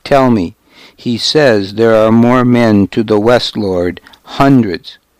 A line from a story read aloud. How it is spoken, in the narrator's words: Godric went on until his voice faltered